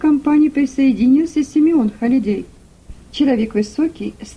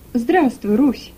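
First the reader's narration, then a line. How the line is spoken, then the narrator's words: Gentle, affectionate. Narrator (Russian): ласково проговорил он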